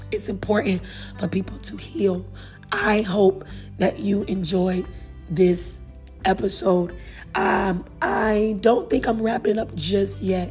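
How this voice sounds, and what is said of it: Hoarse, nearly lost voice. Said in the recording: “I am so sorry that my voice is out. I hope that I ain't get on your nerves with it.”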